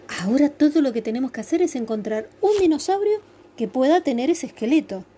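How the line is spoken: Plain. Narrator (Spanish): dijo Winnie

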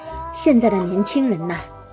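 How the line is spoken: Emboldened, relentless woman. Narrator (Chinese): 女人像是得到了应援，更加不依不饶地说了起来

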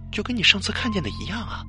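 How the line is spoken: Soft, hesitant. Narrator (Chinese): 王瑶啊了一声之后，还是小声的说了

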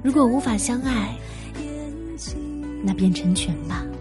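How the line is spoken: Soft recitation. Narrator (Chinese): 他轻声念道

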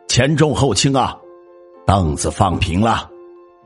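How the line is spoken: Loud shout. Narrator (Chinese): 喊丧的人大喊道

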